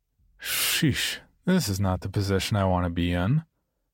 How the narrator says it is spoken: With a sigh that said

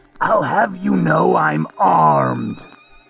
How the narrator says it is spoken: he shouts

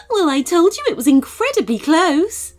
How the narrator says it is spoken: laughed Chloe the bunny

